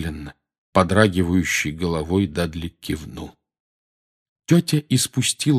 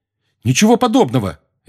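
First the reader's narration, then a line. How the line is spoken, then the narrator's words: Sharp. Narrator (Russian): резко сказал Гарри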